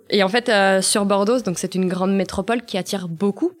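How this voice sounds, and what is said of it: Slight southern French accent. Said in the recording (French): “je faisais un petit accent. ... Euh, du sud. Du sud.”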